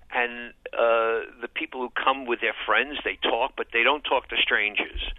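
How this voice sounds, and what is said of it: New York accent. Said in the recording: “as you could tell from my accent, and you mentioned I live in New York City”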